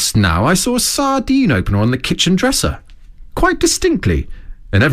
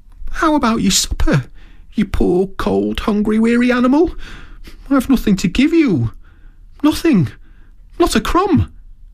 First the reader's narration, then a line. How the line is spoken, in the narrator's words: he moaned